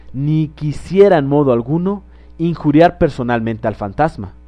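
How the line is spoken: Plain. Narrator (Spanish): dijo

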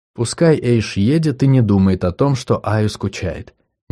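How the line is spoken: Quiet. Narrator (Russian): негромко сказала она

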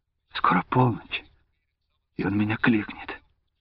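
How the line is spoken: Halting whisper, young woman. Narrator (Russian): девушка отрывисто шептала ему на ухо

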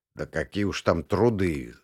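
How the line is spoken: Grumbling. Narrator (Russian): забурчал Кудряшов

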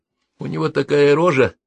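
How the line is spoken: Grumbling. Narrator (Russian): стал ворчать Перельман

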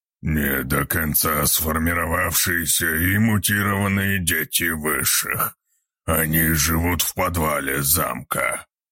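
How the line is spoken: Werewolf guard growling. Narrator (Russian): прорычал стоящий рядом с пленницей охранник-оборотень

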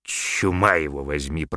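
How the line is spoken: Grumbling. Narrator (Russian): проворчал Тагабар

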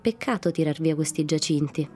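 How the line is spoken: Plain. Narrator (Italian): disse uno

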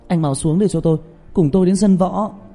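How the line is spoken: Shouting. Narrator (Vietnamese): Trương Tiểu Nhị

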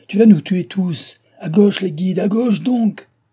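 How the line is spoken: Shouted. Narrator (French): cria-t-il

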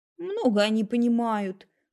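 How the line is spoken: Dismissive snort. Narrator (Russian): хмыкнула тетя Лариса

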